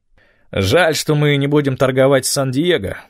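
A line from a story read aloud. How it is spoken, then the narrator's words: Grumbled. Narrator (Russian): проворчал Эд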